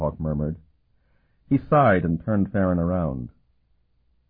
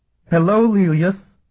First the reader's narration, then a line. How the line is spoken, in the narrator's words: she shrieked